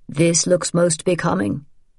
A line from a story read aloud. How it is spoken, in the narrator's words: he said in a hearty voice